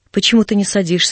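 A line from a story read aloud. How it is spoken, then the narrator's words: Plain. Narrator (Russian): спросил я его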